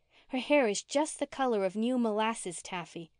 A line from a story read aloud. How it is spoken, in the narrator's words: she added wistfully